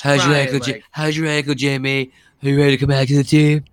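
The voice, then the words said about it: Imitates another person's voice. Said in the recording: “That's a great Belichick.”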